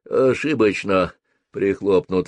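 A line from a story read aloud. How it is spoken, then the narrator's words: Sighing village elder. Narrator (Russian): вздохнул староста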